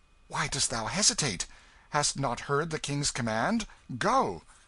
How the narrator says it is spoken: Tom Canty said sharply

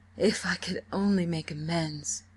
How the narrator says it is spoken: groaned Richard

